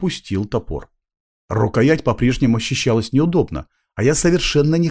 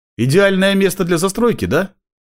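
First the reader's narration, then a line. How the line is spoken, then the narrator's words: Nervous snort. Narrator (Russian): Я нервно хмыкнул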